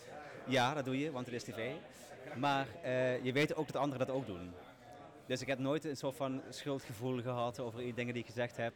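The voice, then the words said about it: Limburg Dutch accent. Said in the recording (Dutch): “Limburg te representen? ... Je hoort het aan, mijn eh, accent. ... het zit er altijd in.”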